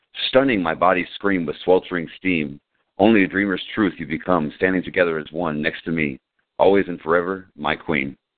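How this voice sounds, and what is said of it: Reads poem in a deep voice. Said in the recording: “I like you saying with that deep voice here”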